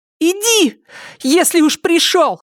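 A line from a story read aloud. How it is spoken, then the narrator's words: Shouted. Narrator (Russian): крикнула Триша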